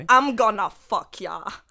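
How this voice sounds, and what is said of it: Put-on Australian accent. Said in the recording (French): “accent australien. Avec un accent australien”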